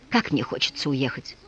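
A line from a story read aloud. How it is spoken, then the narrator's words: Whispered. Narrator (Russian): мсье Лезюр прошептал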